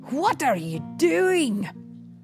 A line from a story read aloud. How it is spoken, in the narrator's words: Scrooge growled